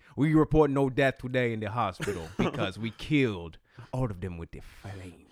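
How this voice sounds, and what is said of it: Poor put-on Chinese accent. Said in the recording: “That was not a very good Chinese accent. ... it started to become like Africanish at the end.”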